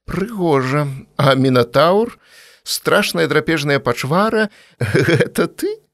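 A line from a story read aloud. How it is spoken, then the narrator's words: Laughing. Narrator (Belarusian): Наста рассмяялася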